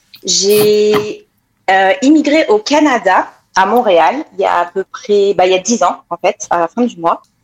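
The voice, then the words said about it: French-from-France accent. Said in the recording (French): “Vous l'entendez à mon accent, je viens de France”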